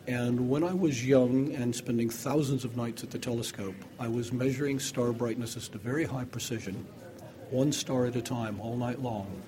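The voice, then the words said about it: North American accent. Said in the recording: “You can hear I have a North American accent, even though I am British.”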